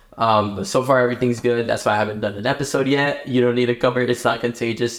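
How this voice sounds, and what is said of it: Slightly hoarse, sore-throat voice. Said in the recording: “If you guys can tell a little bit from my voice, I have a little bit of a sore throat.”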